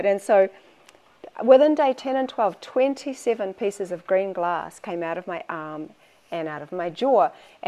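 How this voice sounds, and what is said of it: Accent where beer sounds like bear. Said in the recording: “Hopefully you understand my accent, because people keep thinking I'm talking about a grizzly bear when I say beer”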